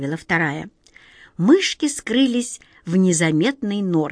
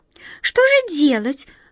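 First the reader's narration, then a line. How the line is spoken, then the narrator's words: Agitated squeak, small creature. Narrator (Russian): взволнованно пискнула первая мышка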